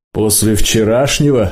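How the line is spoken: Deafening laughter. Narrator (Russian): стужа оглушительно захохотал

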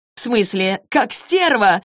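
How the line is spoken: Laughing loudly. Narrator (Russian): расхохоталась Изабель

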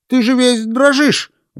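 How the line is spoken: Exclamation. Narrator (Russian): воскликнул врач

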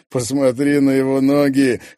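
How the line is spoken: Chuckling. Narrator (Russian): хохотнул Микель

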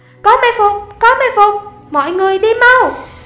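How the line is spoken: Shouting. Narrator (Vietnamese): Hắn hét lên

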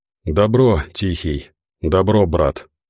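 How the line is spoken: Exhaled words. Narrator (Russian): выдохнул Бизон

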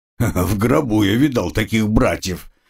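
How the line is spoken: Slightly hoarse reply. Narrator (Russian): хрипловато ответил

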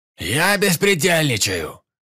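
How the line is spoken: Yelled in reply. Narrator (Russian): заорал в ответ Перепел

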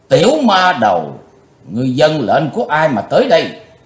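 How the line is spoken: Furious shouting. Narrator (Vietnamese): Huỳnh Minh đạo nhân thịnh nộ quát lên

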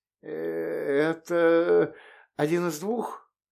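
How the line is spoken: Strained, forced out. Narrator (Russian): с трудом выдавил из себя привратник

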